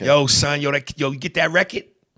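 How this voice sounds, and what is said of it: Put-on New York accent. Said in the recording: “Here's an East Coast accent. ... That's an accent.”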